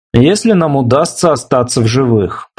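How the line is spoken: Grumbling. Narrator (Russian): пробурчал Келли

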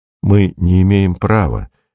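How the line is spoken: Soft. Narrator (Russian): мягко сказал Беркут

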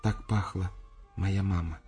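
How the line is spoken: Quiet, shy. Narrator (Russian): тихо сказала она

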